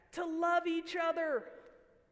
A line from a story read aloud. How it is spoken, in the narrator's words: 16 other voices yelled back